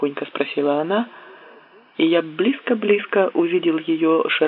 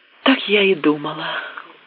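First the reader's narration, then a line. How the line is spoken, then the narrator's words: Satisfied sigh. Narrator (Russian): с удовлетворением вздохнула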